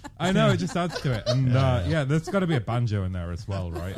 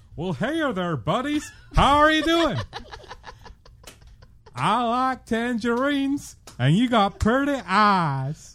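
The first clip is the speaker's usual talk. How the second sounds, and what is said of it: Put-on Arkansas accent. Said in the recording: “here is my finest Arkansas accent”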